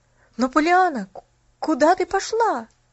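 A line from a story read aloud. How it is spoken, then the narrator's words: Exclaiming. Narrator (Russian): воскликнул Джимми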